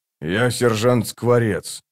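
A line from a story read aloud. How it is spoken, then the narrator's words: Quiet statement. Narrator (Russian): тихо сообщил Бородач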